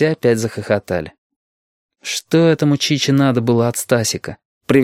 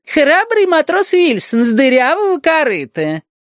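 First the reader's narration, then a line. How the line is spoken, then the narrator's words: Clownish voice. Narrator (Russian): сказал клоунским голосом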